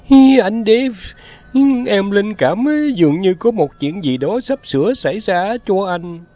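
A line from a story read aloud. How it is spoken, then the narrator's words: Tearful whimpering. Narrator (Vietnamese): mụ vợ đã chạy tới trước mặt mếu máo nói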